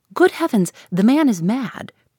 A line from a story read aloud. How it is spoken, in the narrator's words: cried the gentleman, whose manner had entirely lost its airiness